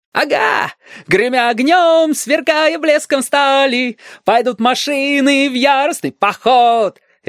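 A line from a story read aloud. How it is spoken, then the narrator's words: Jubilant yelling. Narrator (Russian): ликующе вопил Стасик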